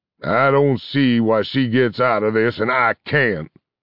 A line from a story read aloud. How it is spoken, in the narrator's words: grumbled Angus